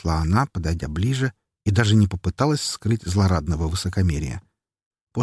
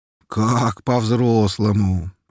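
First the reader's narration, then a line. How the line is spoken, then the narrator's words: Drawling, hiding surprise. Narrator (Russian): протянул я, стараясь скрыть удивление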